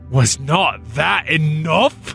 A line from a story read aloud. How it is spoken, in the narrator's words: he demanded fiercely